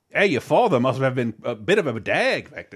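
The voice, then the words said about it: Attempted Australian accent. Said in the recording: “the Australian slang ... Correct me on my accent later.”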